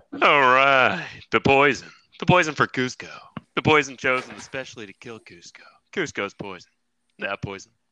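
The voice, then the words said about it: Kronk voice impression. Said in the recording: “I did a Kronk voice impression.”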